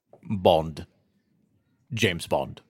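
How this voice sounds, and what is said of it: Attempted Scottish accent, sounds British. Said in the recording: “best Scottish accent in memory of Sean Connery ... That's pretty good. ... No, that sounded British.”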